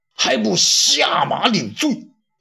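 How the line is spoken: Angry. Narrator (Chinese): 魏京愤怒地说道

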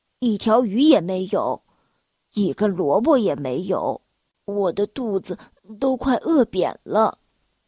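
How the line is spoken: Sighing. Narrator (Chinese): 他叹了口气，说道

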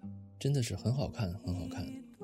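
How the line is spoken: Murmuring. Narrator (Chinese): 韩青喃喃地说

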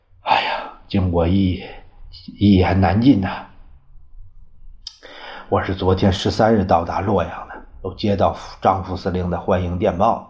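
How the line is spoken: Long sigh. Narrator (Chinese): 端纳长叹一声

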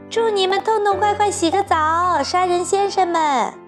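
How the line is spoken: Laughing shout while running. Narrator (Chinese): 匹诺乔…哈哈大笑，一面跑一面叫

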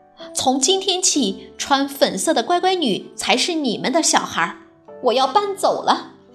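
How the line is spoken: Loud announcement. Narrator (Chinese): 艾米大声宣布

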